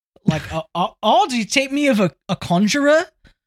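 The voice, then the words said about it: Put-on New Zealand accent. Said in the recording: “It'd be pretty funny if it was a Kiwi accent”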